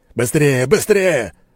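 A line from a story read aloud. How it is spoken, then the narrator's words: Yelling while fighting. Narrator (Russian): орал Алексей, отбиваясь от теней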